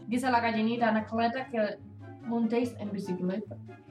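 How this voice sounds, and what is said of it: Put-on Arabic accent. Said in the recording (Spanish): “con acento ... Árabe”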